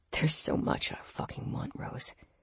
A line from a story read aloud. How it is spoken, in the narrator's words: he murmured with a rasp